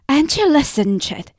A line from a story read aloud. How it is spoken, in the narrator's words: said impatiently